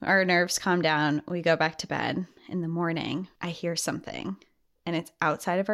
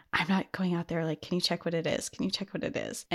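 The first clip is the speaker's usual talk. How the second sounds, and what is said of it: Whispering. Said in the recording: “whispering”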